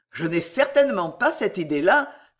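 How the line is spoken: Warm exclamation. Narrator (French): s'écria chaleureusement M

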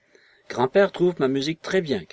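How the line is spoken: Shouting. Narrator (French): cria-t-il

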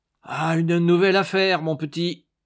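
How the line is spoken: Exclaiming. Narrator (French): s'écria Doria

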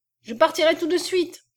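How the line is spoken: Shouting. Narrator (French): cria le mulat

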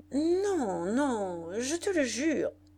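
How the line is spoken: Stammering. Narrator (French): bégaya-t-il

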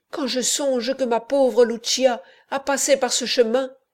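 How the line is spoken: Anguished exclamation. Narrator (French): s'écria-t-elle

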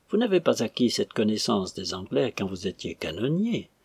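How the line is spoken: Dry remark. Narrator (French): remarqua sèchement le lieutenant

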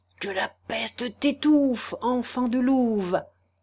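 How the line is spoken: Clogmaker speaking low. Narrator (French): dit tout bas le sabotier

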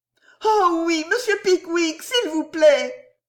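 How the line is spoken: Ladies exclaiming together. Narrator (French): s'écrièrent toutes les dames

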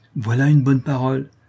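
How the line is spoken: Exclaimed. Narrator (French): s'écria Mirmont

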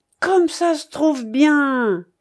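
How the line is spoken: Exclamation. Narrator (French): s'exclama-t-il

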